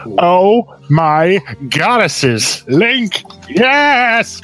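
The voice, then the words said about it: Old man voice. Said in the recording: “I don't know why I just gave them an old man accent.”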